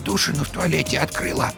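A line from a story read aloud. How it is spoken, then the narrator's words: Quiet telling. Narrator (Russian): тихо сообщила она Вовке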